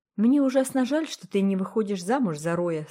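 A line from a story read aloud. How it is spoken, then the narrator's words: Plain. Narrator (Russian): сказала она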